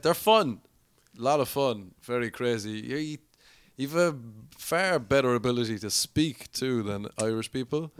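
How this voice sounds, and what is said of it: Irish accent. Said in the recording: “I have a nice accent”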